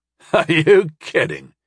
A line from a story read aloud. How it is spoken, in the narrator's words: Talaman scoffed